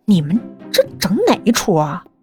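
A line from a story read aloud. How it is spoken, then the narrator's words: Muttering. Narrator (Chinese): 他嘀咕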